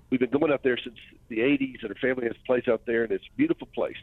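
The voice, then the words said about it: Southern American accent. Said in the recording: “I hear the accent... I got a Southern accent”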